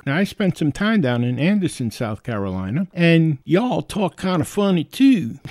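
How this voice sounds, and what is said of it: Strong New York Bronx accent. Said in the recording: “I was born and raised in the Bronx. I realize I do have a New York accent. I didn't realize how strong of an accent I had ... do you think you're an Italian mobster? Are you from the Sopranos?”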